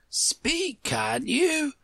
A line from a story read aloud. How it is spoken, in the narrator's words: Hagar cried impatiently